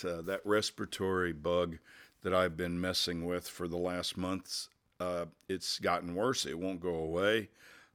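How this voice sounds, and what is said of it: Voice sounds sick. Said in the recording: “as you can tell from my voice, I am not”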